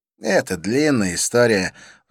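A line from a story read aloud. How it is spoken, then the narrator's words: Sigh. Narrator (Russian): вздохнул он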